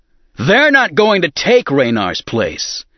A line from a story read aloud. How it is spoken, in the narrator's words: Han shouted